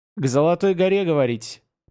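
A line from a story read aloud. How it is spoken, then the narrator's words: Booming laughter. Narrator (Russian): капитан гулко расхохотался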